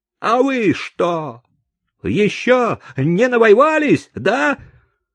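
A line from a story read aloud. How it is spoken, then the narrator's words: Shout. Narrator (Russian): крикнул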